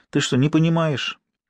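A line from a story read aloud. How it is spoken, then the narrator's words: Sighing. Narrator (Russian): Ира вздохнула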